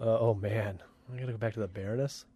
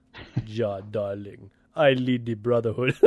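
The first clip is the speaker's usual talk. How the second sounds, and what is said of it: Put-on German-Russian villain accent. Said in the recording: “she's got like a German accent... That's more of a Russian thing”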